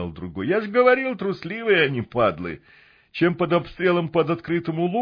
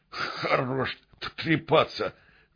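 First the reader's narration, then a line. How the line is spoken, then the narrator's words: Stammering man. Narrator (Russian): заикаясь, сказал самый крепкий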